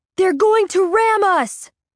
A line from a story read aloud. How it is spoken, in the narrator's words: Bob screams